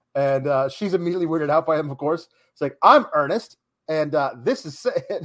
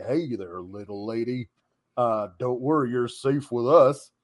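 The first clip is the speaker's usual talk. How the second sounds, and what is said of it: John Wayne impression. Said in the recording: “his John Wayne impression. Which is a fantastic impression, but I can't do.”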